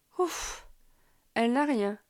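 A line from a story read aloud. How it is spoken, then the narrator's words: Relieved sigh. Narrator (French): soupire-t-il, soulagé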